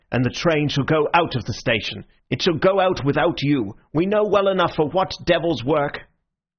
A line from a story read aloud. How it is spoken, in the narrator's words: Bull fiercely